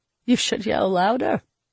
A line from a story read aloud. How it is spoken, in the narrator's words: Entus chuckled